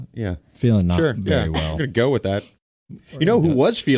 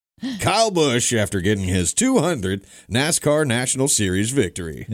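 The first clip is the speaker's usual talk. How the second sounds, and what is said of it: Radio announcer voice. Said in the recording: “Radio announcer voice. ... That was a good radio voice.”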